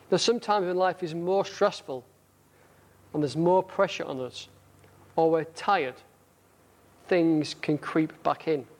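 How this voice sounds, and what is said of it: Northern English accent. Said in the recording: “my northern accent ... because of my northern accent”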